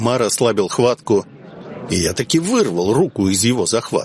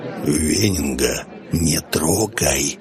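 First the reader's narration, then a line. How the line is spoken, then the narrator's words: Whispered. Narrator (Russian): снова зашептал капитан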